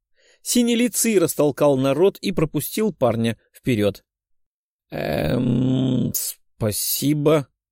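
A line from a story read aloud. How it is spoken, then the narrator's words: Uncertain. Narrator (Russian): неуверенно сказал парень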